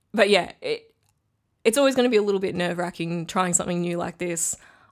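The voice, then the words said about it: Squeaky, strained, failing voice. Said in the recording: “I'm losing my voice ... So you'll have to put up with my squeaky voice”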